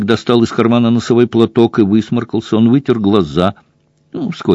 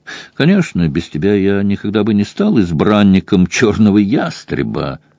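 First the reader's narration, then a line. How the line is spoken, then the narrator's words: Plain. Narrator (Russian): сказал Шаддок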